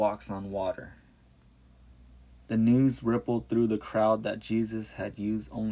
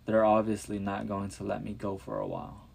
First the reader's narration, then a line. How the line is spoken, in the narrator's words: he said kindly